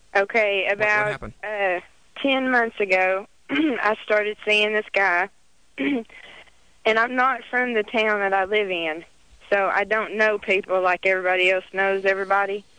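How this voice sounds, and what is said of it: Southern American accent. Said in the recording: “I can tell by your voice ... just because I talk Southern”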